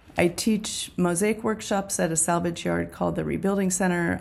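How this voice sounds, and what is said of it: Hoarse, froggy voice. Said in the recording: “my voice is a little froggy this morning”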